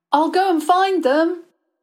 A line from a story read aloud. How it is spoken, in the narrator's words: he shouted behind him